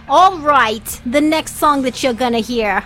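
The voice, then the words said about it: Put-on accent. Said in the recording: “I don't know why I switched to an accent”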